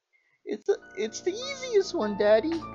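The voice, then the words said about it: Man imitating a little girl's voice. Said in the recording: “Trying to do a little girl voice, it's hard.”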